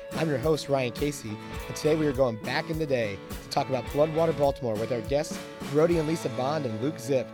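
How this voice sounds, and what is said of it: Hoarse, worn-out voice. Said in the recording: “Sorry about my voice. ... I had a massive connection of bronchitis and cold that really took out my voice.”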